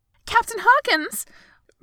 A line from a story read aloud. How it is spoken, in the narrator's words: First flight attendant gasped